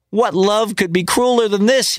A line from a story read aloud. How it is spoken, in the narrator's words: cried